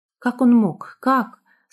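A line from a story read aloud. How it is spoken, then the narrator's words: Sobbing, bitter questioning. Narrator (Russian): спрашивала она себя, рыдая в подушку от горечи и разочарования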